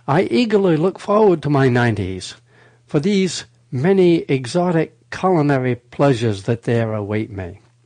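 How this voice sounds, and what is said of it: Unusual, hard-to-place accent. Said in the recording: “What accent is this? This is wild.”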